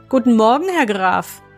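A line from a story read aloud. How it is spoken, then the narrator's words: Calling out. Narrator (German): rief er ihm zu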